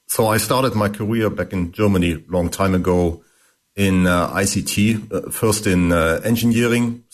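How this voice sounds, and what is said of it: German accent. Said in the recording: “You might have heard from my accent that I'm actually German.”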